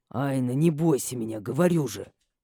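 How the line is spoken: Angry whisper. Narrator (Russian): сердито шепнул Матиас

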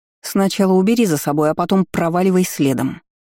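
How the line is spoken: Barked. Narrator (Russian): рявкнула я

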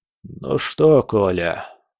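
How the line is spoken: Tired question. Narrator (Russian): спросил министр обороны, устало

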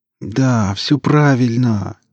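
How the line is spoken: Near-moaning boss. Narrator (Russian): чуть ли не стонал шеф

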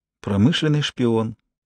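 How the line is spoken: Mumbled. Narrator (Russian): пробормотала она

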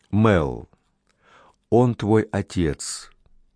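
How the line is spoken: Gentle. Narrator (Russian): мягко заговорила

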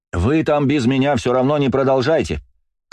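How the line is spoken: Shouted. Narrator (Russian): крикнул я

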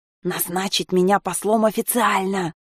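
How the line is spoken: Hiss. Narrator (Russian): Прошипел наконец Ними

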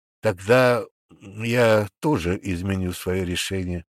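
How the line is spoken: Forced out reluctantly. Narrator (Russian): выдавил премьер

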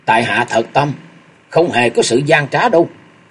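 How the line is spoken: Sharp reply. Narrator (Vietnamese): Ngọc Long cáo gắt đáp lời của thập tứ lang

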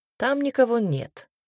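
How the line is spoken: Dry flat statement. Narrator (Russian): сухо констатировал Гариус

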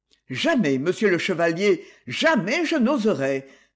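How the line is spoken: Exclaimed. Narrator (French): s'écria le créancier qui, dans son fort intérieur, craignait de retrouver en M

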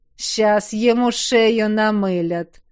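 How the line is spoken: Gloating chuckle. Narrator (Russian): злорадно хохотнул кто-то еще

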